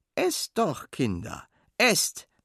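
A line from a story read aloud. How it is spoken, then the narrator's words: Plain. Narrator (German): sagt John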